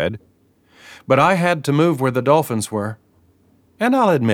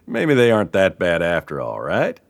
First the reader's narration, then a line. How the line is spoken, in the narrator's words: He laughed